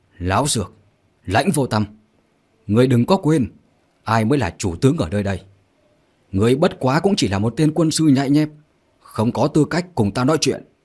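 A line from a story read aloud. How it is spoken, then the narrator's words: Angry shout. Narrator (Vietnamese): Trương Động nghe xong tức giận hét lớn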